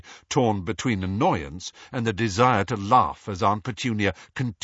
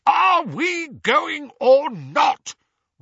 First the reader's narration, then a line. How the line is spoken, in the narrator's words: roared Uncle Vernon